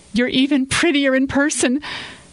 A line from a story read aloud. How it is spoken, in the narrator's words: Samantha added nervously